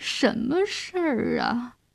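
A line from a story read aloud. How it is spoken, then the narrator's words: Sleepy mumbling. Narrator (Chinese): 亚克林睡眼迷蒙地嘟囔着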